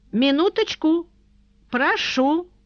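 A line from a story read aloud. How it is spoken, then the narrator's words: Shouted. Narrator (Russian): крикнул Иозефус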